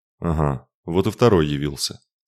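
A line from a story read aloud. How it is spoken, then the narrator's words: Old man grumbling. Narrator (Russian): проворчал старик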